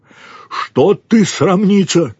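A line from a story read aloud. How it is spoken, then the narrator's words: Shouting. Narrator (Russian): крикнул он ей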